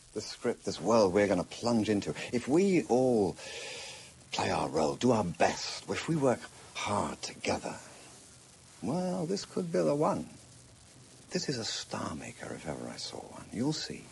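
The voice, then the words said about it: Posh British accent. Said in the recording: “Jeremy Irons, doing his kind of posh British accent.”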